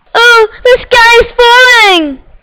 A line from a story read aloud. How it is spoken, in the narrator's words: cried Chicken Licken